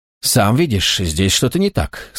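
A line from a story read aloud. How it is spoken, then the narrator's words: Plain. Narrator (Russian): сказал Лукас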